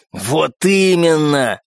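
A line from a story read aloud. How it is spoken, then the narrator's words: Growled. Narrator (Russian): прорычал первый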